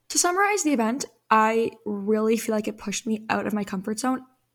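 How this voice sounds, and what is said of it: Weak voice that keeps fading. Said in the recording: “my voice keeps dying off. I'm not sick, but I feel like maybe I am getting sick.”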